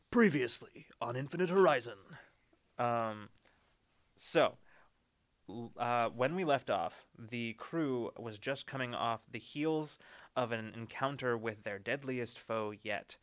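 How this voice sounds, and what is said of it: Bombastic movie trailer voice. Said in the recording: “back to bombastic trailer voice for a second”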